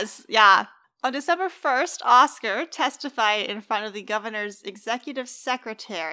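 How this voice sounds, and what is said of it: Usual voice. Nothing is said of it.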